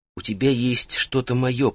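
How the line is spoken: Female whisper. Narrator (Russian): прошептала она

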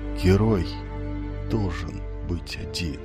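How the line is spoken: Barely audible whisper. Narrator (Russian): чуть слышно прошептал он

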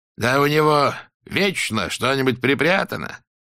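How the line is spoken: Guttural, unsurprised. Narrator (Russian): произнесла она гортанным голосом, не выказав ни малейшего удивления

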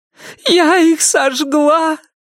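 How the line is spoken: Muffled sobbing. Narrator (Russian): прорыдала Салли в мокрый бюст Ирен

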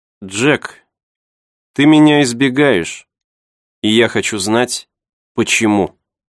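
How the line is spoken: Serious tone. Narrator (Russian): Джулия серьезным тоном произнесла

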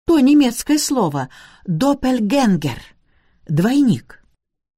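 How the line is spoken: Exclamation. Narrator (Russian): Каноник Пеннифазер воскликнул

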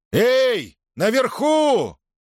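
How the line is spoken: Loud shout. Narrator (Russian): громко крикнул

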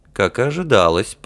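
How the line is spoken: Mumbling prince. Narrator (Russian): пробормотал принц

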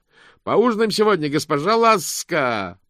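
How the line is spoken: Shouted. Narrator (Russian): прокричал он

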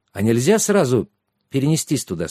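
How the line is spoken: Plain. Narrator (Russian): спросил Трикс

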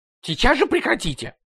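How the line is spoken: Yell. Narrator (Russian): завопил управляющий

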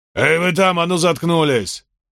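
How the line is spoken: Barked. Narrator (Russian): Это рявкнул Ганнибал Грин

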